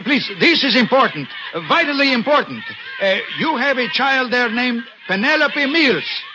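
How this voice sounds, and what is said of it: Foreign accent. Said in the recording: “Senor Mills, perhaps it is my accent.”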